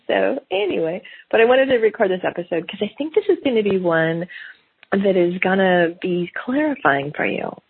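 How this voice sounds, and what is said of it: Gravelly voice from a cold. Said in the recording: “I have a little smidge of cold ... I got a little gravelly voice”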